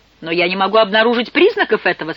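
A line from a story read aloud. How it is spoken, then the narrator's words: Rather cold. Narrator (Russian): сказал довольно холодно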